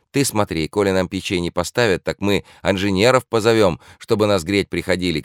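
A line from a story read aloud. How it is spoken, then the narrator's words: Shouting peasant woman. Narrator (Russian): крикнула та самая калужская баба, которой Квашнин приказал говорить за всех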